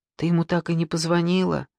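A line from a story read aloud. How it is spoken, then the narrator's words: Near-whispered question. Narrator (Russian): почти шепотом спросила Сима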